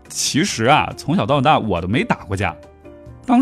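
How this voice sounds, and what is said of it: Usual voice. Nothing is said of it.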